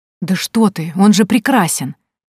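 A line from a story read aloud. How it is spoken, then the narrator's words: Flustered girl exclaiming. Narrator (Russian): воскликнула девушка, вспыхивая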